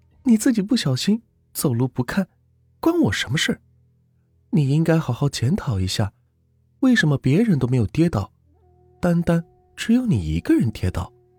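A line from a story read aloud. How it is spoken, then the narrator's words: Laughing. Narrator (Chinese): 女孩笑了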